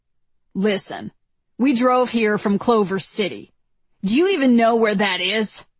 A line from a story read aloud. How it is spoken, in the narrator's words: He grunts